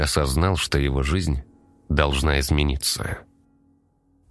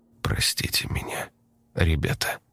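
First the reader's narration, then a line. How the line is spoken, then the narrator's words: Grieving whisper. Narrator (Russian): прошептал он, опускаясь на колени перед могилами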